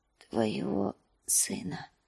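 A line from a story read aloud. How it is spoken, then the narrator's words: Whispered. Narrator (Russian): прошептал он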